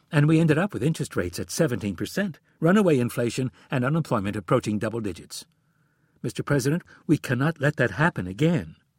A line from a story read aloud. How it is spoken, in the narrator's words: She quickly added